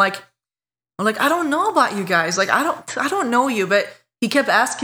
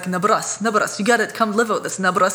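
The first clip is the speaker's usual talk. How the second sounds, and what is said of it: Mock Czech accent. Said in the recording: “they were Czech, from Czech Republic ... I'm going to make fun of his accent”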